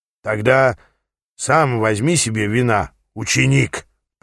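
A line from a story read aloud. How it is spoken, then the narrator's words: Growl. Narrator (Russian): прорычал он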